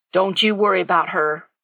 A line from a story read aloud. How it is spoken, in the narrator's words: Jack said gruffly